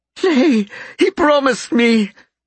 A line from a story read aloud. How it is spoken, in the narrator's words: Stacia sobbed